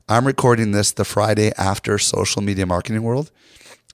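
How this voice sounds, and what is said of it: Slightly hoarse, worn voice. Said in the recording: “my voice is a little shot ... my voice was so bad because I talked to so many people”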